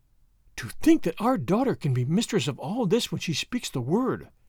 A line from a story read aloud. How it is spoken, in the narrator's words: she gasped